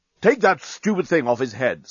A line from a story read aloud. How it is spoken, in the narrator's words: snapped Bolfast